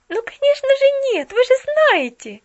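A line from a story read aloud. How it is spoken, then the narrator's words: Jubilant exclamation. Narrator (Russian): ликующе воскликнула Поллианна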